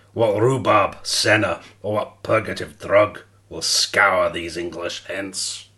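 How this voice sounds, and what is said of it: Put-on Scottish accent. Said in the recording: “Do it with a Scottish accent ... Scottish accent is shocking”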